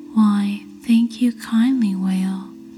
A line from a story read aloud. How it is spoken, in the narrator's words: Stingray replied